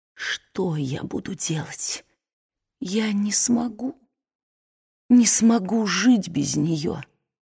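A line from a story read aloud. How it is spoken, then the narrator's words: Broken whisper. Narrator (Russian): прерывающимся голосом зашептал на ухо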